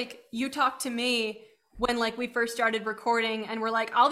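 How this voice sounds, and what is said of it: Usual voice. Nothing is said of it.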